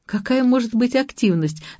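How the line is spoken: Laughing. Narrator (Russian): засмеялась Ася

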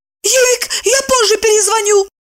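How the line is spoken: Hurried squeak. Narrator (Russian): пискнула спешно она

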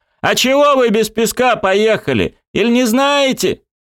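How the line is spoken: Shouting. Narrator (Russian): сам закричал машинисту

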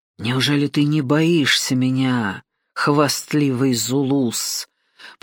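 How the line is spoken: Hissing. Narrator (Russian): прошипел Ндала

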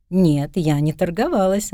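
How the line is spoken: Laughing. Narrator (Russian): она засмеялась

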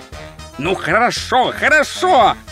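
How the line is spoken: Barking. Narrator (Russian): рявкнул Ринсвинд

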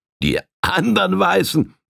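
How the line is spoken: Laughing tramp. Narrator (German): lachte der Tramp

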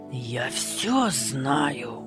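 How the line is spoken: Angry suppressed hiss. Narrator (Russian): Злобно шипела она, не осмеливаясь громко кричать в передней

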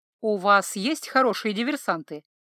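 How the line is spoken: Plain. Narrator (Russian): спросил Калли

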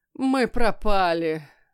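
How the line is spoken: Groaning. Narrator (Russian): застонал Люцитор

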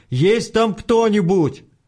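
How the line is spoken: Frightened shout, voice cracking. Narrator (Russian): Это было так необъяснимо и жутко, что, не выдержав, Артем, дав петуха, крикнул в пустоту

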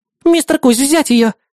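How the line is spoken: Young girl exclaiming. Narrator (Russian): воскликнула юная мисс Васильева

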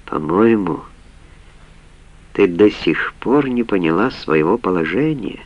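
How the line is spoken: Soft, close-up. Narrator (Russian): мягко проговорил, приблизив свое лицо почти вплотную к ней

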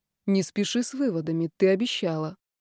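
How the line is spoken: Quiet. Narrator (Russian): Костя негромко произнес

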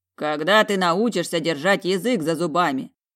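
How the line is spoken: Deep bass voice. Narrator (Russian): пробасил

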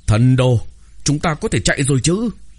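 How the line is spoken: Hurried shout. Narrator (Vietnamese): Phi Liêm hét lên một tiếng, vội vàng nói

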